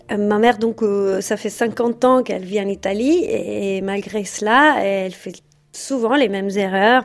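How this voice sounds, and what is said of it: Italian accent in French. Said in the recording (French): “je suis italienne ... moi-même j'ai un accent”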